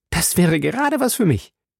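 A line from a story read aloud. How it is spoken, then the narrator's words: Calling out. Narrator (German): rief Passepartout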